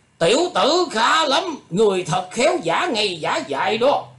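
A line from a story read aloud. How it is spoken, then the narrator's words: Composed shout. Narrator (Vietnamese): Thạch Đại Xuyên sau phút kinh ngạc, lấy lại thần thái quát lên rằng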